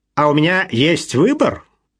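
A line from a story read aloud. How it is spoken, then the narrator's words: Snapping retort. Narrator (Russian): огрызнулся Палмер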